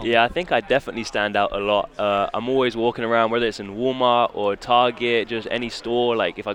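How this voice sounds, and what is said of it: British English accent. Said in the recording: “your accent from Great Britain ... I'm from England”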